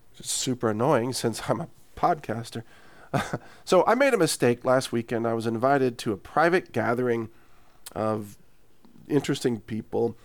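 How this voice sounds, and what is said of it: Partially wrecked voice. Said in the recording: “my voice is partially wrecked”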